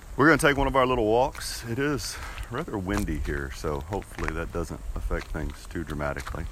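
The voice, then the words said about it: Congested, sniffly sick voice. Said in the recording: “if you can't tell by my voice, I'm a little bit under the weather, so I apologize for whatever sniffles may occur”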